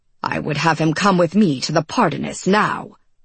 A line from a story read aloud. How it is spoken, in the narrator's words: Marvel snapped